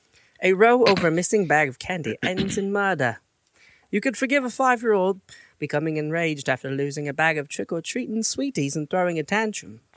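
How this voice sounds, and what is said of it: Put-on British accent. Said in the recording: “my not-so-famous UK accent”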